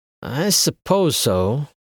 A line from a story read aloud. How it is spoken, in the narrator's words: Mark said hesitantly